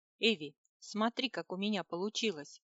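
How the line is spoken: Joyful exclamation. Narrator (Russian): обрадованно воскликнул Рерих

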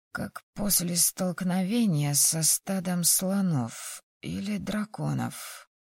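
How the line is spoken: Hoarse chuckle. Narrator (Russian): У меня вырвался хриплый смешок

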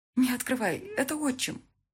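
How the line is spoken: Anxious whisper. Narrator (Russian): взволнованно зашептала Мика

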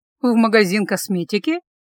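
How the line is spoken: Slightly mocking question. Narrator (Russian): чуть насмешливо уточнила я

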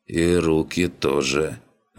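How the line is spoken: Sighing. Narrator (Russian): вздохнул гном

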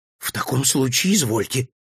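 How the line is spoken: Frightened voice. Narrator (Russian): испуганно произнес

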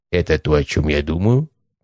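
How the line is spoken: Quiet conspiratorial question. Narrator (Russian): позаговорчески тихо спросил заведующий

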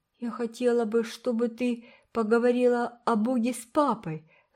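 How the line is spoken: Sigh. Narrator (Russian): вздохнула Уна

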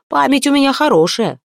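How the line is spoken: Barked retort. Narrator (Russian): рявкнул в ответ Стормунд

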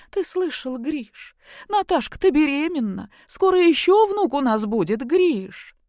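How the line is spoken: Joyful. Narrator (Russian): проговорила радостно

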